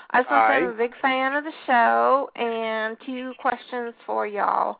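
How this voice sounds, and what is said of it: Southern American accent. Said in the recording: “despite the southern accent”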